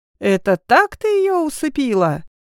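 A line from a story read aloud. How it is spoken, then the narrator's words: Falsetto wail, man. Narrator (Russian): фальцетом взвыл мужчина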